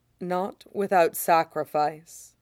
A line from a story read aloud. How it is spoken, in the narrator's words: Hecate says softly